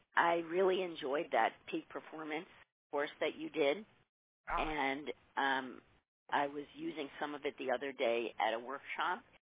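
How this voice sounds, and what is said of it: Hoarse, failing voice. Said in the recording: “I'm losing my voice, though, today”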